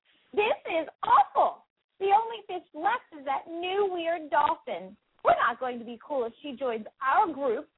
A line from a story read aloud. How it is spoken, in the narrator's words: said angrily